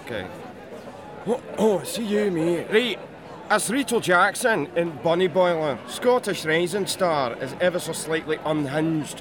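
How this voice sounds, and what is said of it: Fairly decent put-on Glaswegian accent. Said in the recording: “I do a Glaswegian accent ... I want to hear that in Glaswegian. ... That's not bad. I really wanted that to be worse.”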